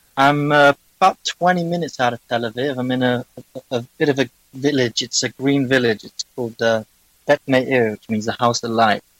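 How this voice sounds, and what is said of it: English accent. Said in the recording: “a European accent ... I'm English”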